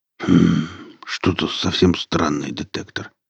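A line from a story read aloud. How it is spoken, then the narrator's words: Muttered. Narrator (Russian): пробормотал Велес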